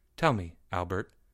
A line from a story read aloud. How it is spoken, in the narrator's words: Leo said quietly